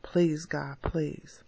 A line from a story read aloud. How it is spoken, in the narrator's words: Again, she uttered under her breath